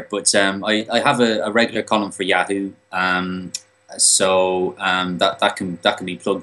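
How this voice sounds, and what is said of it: Irish accent. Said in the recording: “I love his accent as well. Yeah, I do mm. love an Irish accent.”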